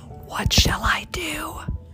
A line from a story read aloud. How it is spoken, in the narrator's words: he whispered